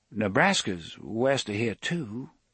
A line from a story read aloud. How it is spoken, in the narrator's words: Susanna said hesitantly